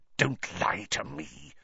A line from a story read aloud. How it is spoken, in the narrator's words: Snape hissed